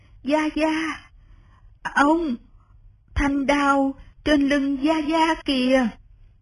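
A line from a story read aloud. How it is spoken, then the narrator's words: Trembling voice. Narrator (Vietnamese): Lý Văn Tú run run nói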